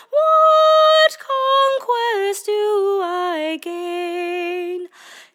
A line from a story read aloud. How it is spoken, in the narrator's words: She cried, by love pursued